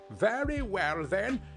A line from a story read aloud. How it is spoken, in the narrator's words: cried the woman